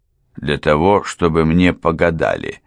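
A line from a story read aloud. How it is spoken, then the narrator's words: Plain. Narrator (Russian): ответил адвокат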